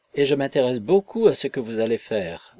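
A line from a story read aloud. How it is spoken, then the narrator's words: Cheerful. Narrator (French): continua gaiement Dorothée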